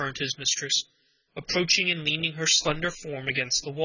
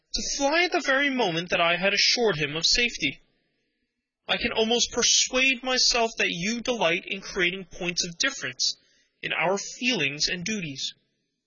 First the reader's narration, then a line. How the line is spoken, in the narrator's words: he cried